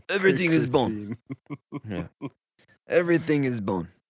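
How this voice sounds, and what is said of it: Put-on French accent. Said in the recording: “Don't know if you can tell by my accent or not ... reads this in a handsome yet unhealthy French ... It sounds a little Middle Eastern.”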